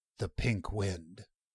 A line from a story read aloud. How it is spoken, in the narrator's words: Crimp whispered harshly